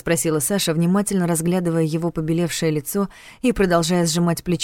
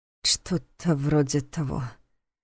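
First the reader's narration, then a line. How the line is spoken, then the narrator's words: Uncertain mumble. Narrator (Russian): неуверенно пробормотал Войтых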